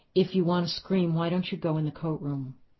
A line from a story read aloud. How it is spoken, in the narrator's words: she said again calmly